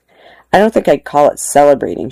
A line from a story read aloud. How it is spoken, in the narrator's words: she said